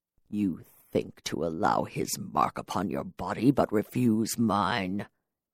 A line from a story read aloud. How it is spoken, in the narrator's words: He hissed